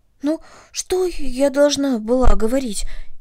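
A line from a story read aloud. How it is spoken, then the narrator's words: Frightened question. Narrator (Russian): испуганно спросила Корнелли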